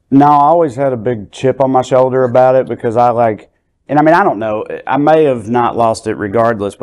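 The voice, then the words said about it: Rural Southern US accent. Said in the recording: “I'm loving your accent ... I'm from Southwest Virginia, and I had somewhat kind of an accent of yours”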